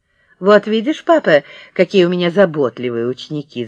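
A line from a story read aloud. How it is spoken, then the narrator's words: Laughing. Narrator (Russian): засмеялась Вера Евстигнеевна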